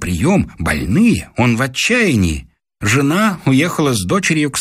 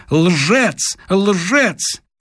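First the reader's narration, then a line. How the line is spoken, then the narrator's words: Woman shouting. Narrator (Russian): жена ему кричала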